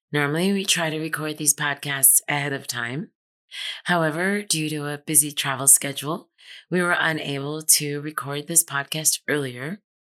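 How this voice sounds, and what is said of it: Hoarse voice from laryngitis. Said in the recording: “You may notice I sound a tad bit different... I'm dealing with a little bit of laryngitis... my voice is a little under the weather”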